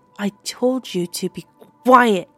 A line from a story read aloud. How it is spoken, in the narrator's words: Laura said a little too loudly